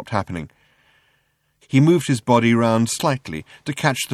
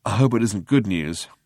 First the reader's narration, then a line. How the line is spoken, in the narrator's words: muttered Zippo Bibrock 5×10⁸